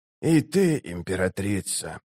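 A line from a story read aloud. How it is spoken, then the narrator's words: Whisper. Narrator (Russian): прошептал он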